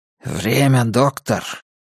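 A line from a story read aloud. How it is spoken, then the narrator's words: Whispered question. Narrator (Russian): Коннор шепотом спросил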